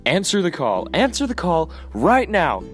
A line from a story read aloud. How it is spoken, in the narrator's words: she kept screaming